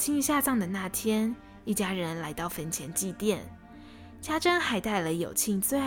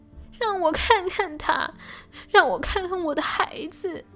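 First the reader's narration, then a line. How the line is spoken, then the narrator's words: Desperate sobbing cry. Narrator (Chinese): 家珍也哭得死去活来，最终喊道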